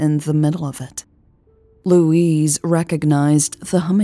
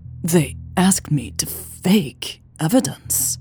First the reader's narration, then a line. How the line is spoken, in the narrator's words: Louise stammered